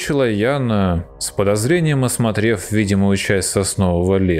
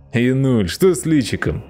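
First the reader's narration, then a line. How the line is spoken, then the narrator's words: Laughing. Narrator (Russian): засмеялся Роман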